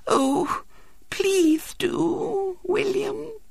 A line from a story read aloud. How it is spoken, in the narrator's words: said Violet Elizabeth in a quivering voice